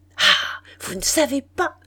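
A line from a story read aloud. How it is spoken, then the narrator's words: Playful, lively schoolgirl exclamation. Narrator (French): s'écria Marie avec une vivacité joueuse d'écolière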